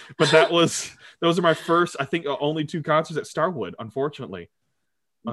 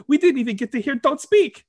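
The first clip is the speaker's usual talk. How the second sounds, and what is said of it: Imitated Filipino accent. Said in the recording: “That's me doing her Filipino accent right there.”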